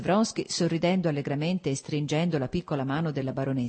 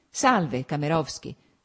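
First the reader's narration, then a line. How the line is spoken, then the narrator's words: Added. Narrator (Italian): soggiunse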